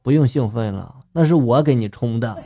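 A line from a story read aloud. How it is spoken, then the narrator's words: Flat, casual tone. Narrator (Chinese): 我的女友淡淡的就说了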